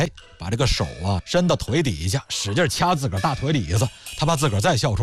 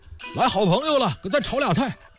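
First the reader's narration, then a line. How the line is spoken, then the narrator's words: Shouting. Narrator (Chinese): 冲着院里啊又喊了一句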